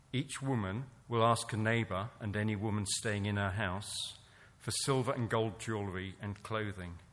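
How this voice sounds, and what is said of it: English accent. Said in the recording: “a nice English accent”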